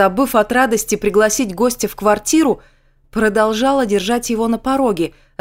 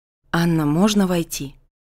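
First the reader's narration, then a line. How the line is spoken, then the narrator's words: Quiet question. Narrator (Russian): тихо спросил он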